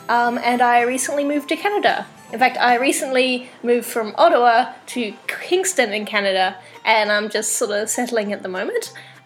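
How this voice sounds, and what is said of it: Australian or New Zealand accent. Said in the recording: “I grew up in Australia and New Zealand, hence the accent.”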